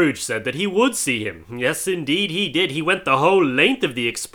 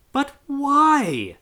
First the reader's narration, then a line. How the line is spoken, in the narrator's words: cried Scrooge's nephew